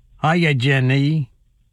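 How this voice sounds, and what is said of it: Forrest Gump character impression. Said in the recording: “my Forrest Gump impression”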